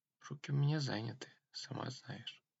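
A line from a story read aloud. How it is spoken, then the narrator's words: Barely audible. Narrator (Russian): сказал чуть слышно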